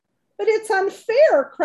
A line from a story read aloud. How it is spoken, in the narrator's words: cried Fern